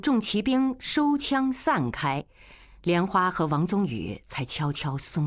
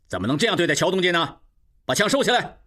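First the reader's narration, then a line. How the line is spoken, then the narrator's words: Angry. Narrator (Chinese): 吴炳仁怒视众骑兵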